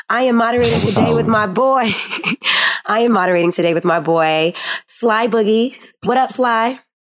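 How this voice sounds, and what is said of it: Raspy voice. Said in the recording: “my raspy voice right now... I have asthma and it's been fucking me up lately”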